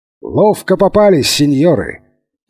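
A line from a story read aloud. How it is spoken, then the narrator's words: Triumphant shout. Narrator (Russian): торжествующе крикнул он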